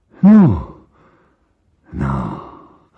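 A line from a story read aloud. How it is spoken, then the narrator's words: Pale muttering, forced smile. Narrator (Russian): забормотал бледный Мигуев, кривя рот улыбкой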